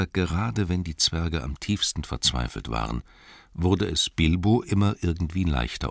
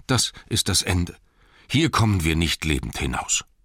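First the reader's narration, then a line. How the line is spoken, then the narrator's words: Group groaning. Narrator (German): stöhnten sie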